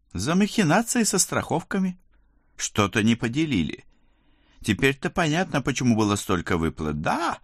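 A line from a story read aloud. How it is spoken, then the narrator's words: Joyful excitement. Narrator (Russian): радостно вскинулся месье Труппенс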